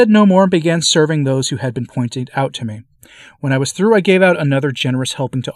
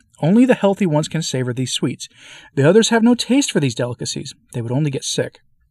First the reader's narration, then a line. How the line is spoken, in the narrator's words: repeated firmly